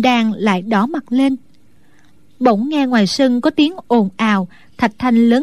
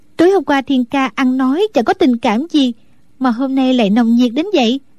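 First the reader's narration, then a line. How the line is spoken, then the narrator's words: Smiling question. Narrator (Vietnamese): Đinh Đan mỉm cười hỏi lại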